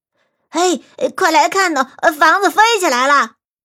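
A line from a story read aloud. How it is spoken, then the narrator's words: Crowd shouting. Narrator (Chinese): 大街上的人都在喊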